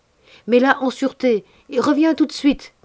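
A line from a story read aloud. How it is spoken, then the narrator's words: Shouting. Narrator (French): criai-je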